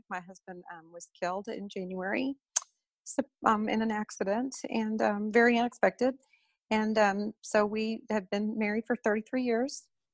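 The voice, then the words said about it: Choked up, tearful voice. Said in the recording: “getting choked up”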